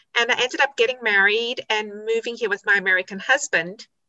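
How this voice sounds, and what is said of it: South African accent. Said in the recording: “I grew up in South Africa, as you can hear from my accent,”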